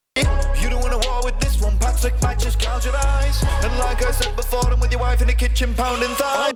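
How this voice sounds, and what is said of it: British (UK) accent. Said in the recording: “these guys are from the UK, that's why they have the accents.”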